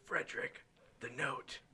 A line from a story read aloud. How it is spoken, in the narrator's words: He whispers